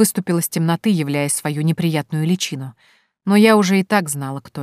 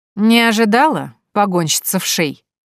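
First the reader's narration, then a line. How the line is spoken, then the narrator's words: Mocking. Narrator (Russian): насмешливо произнес Жюль, брезгливо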